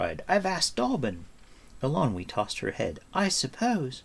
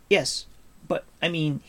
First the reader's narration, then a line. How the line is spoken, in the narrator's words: he stammered